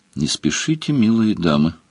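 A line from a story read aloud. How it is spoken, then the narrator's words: Plain. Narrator (Russian): сказал Сварог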